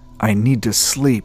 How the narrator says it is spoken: growled through clenched teeth

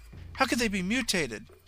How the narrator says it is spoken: snapped sharply

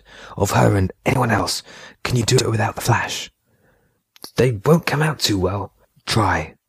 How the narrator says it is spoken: Remy whispered

